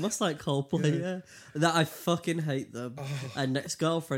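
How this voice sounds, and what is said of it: Usual voice. Nothing is said of it.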